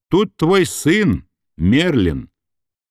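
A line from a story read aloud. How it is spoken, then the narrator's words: Matter-of-fact. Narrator (Russian): продолжила она абсолютно будничным голосом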